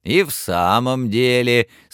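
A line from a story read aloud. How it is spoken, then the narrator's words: Laughing agreement. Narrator (Russian): смеясь, поддакнула миссис Дилбер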